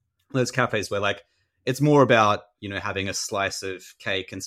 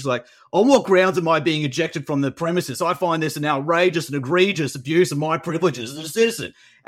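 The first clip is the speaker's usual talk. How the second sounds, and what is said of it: Thick rural working-class Australian accent. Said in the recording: “he spoke with this really thick Australian accent... he's a really strong Australian accent... this really rural kind of working class Australian accent”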